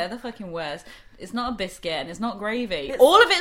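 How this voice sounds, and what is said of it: Usual voice. Nothing is said of it.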